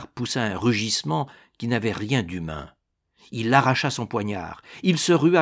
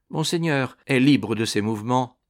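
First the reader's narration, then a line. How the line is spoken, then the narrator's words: Cold, composed. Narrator (French): dit Ragastens froidement, toute sa raison reconquise devant le danger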